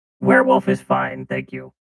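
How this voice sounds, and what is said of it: Sexy robot voice. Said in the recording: “sexy robot voice for this week's werewolf uh, voice”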